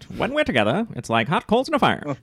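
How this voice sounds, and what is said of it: Put-on transatlantic accent. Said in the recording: “You should do it in the transatlantic accent.”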